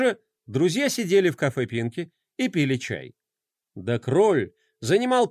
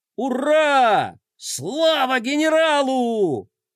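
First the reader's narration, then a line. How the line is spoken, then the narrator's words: Shouting in chorus. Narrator (Russian): Хором закричали геройчики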